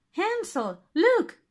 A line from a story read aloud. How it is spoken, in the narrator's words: cried Gretel